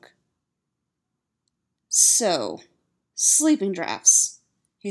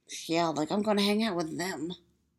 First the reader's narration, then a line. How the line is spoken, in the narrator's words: Styles mutters